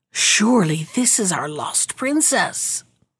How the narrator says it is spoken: their mothers whispered together, saying

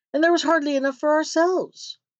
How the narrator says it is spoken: cried they

